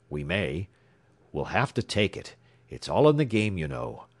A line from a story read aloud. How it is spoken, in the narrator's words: declared Boyle grimly